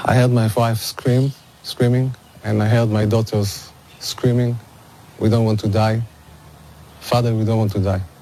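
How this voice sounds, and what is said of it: Emotional, strained speaking voice. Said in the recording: “I'm getting emotional right now as well.”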